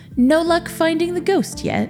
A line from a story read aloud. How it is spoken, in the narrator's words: She asked Victor cheerfully